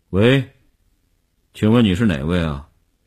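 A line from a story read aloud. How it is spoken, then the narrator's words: Tense, trembling voice. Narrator (Chinese): 林星呼吸紧张，几乎不能控制声音的痉挛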